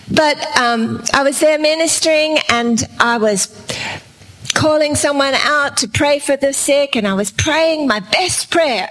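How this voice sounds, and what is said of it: Australian accent. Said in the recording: “We are from Australia. That's why my accent's a little different”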